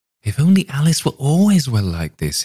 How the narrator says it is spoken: he exclaimed

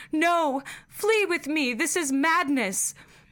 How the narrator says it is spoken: I cried aloud, and screamed

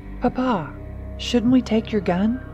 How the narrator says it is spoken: Teresa asked, her voice tinged with concern

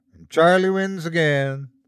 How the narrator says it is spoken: Eddie said sadly

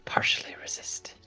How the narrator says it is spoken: try to hold a smirk while whispering

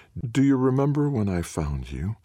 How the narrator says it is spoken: Queenie purrs

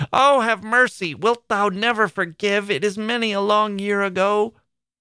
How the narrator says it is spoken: Miss Furnival kept shrieking out

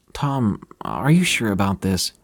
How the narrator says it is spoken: Sarah asked, her voice trembling

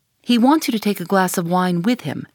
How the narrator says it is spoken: said the interpreter

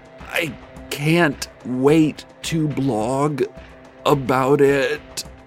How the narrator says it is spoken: the blogger said through gritted teeth

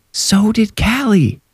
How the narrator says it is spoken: Irene yelled in a whisper

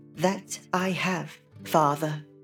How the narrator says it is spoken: replied, and her voice was as lovely as her beautiful face

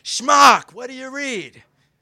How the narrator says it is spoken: He'd yell out

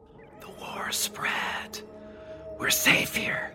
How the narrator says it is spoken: whispered

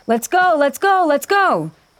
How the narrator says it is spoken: shouting

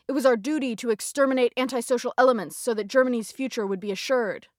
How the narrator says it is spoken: She snapped back

